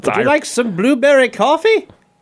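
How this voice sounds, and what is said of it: Bad put-on Irish accent. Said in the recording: “Maybe the worst Irish accent I've ever heard. Maybe the worst.”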